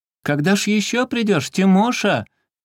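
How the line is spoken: Young lady calling out. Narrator (Russian): кричала ему барышня

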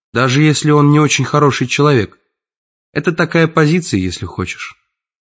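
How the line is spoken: Calm reply. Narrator (Russian): отвечает она спокойно

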